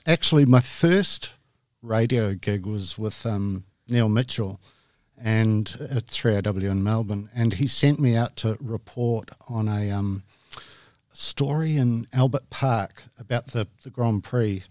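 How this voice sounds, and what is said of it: New Zealand accent. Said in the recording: “I've got this terrible Kiwi accent”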